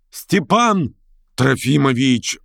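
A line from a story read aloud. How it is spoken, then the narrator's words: Joyful roar. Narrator (Russian): радостно проревел семинарист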